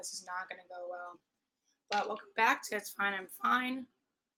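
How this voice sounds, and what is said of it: Hoarse, strained voice. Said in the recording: “my voice is already shot.”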